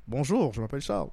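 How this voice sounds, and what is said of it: Imitates another person's voice. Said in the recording (French): “Serais-tu capable de m'imiter? Ah ouais, essaye de m'imiter.”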